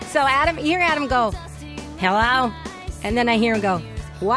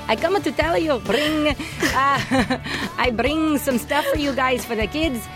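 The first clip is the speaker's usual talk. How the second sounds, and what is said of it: Imitates another person's accented voice. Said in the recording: “in an accent? ... Bring, yeah.”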